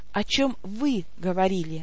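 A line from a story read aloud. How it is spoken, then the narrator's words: Soft, smiling. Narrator (Russian): мягко улыбнулась я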